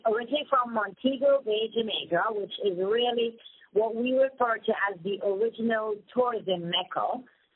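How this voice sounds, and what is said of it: Jamaican accent. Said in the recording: “I love your accent is just lovely, and I love listening to you talk ... I'm from Jamaica.”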